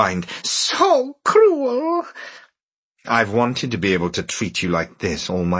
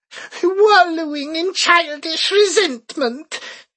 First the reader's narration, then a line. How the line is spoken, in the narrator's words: she said shakily